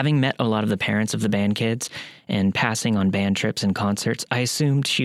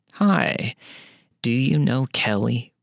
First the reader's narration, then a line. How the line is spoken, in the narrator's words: She said in the most tired, slurred, low-sounding voice that I had ever heard